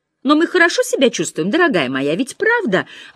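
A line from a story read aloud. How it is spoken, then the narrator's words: Anxious question. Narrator (Russian): взволнованно спросила она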